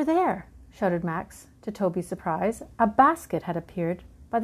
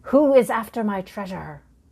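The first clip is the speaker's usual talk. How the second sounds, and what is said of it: Funny shouted pirate voice. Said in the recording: “shouted a funny voice”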